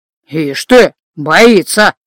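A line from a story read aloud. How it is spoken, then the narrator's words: Pleased mutter. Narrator (Russian): довольно пробурчал мужчина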